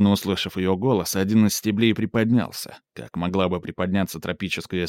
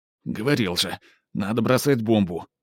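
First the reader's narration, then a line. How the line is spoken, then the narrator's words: Grumble. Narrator (Russian): буркнул Хавьер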